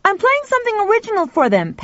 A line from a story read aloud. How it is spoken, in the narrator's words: Pal shouted back